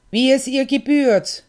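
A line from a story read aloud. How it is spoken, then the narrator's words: Called out. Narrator (German): ruft sie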